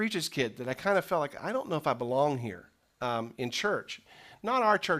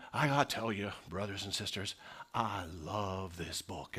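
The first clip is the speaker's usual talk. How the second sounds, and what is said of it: Southern preacher voice, misty-eyed. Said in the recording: “they all sound like they're from the South, even if they're from Pittsburgh ... They're all imitating Billy Graham ... They get a little misty-eyed”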